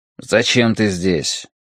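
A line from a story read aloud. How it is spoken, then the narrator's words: Grumbling. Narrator (Russian): проворчал он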